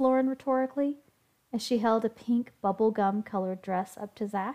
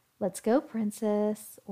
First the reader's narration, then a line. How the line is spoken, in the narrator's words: ordered Lauren